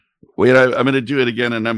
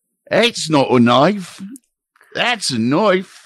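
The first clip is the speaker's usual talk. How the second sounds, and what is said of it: Exaggerated put-on Australian accent. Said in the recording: “I'm going to give it my most Australian.”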